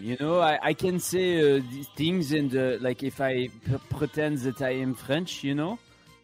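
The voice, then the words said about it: Put-on French accent. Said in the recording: “I can do the French accent, no problem.”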